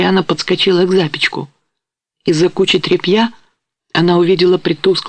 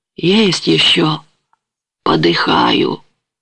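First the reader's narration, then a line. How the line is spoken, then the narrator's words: Weak old man's voice. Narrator (Russian): слабым старческим голосом ответил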